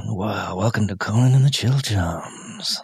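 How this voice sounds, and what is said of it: Raspy, breathy late-night jazz voice. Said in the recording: “That's your sexy voice? ... That's my sexy jazz voice. ... A late night jazz channel. ... That's also your emphysema voice. That's your, that's my lungs are collapsing because I smoked for 40 years voice.”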